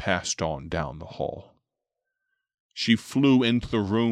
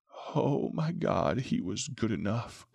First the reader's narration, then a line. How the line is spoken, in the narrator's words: groaned the man